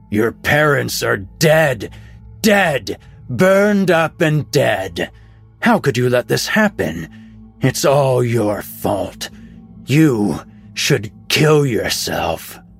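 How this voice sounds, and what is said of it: Angry, evil booming voice. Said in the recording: “The angry, evil voice boomed”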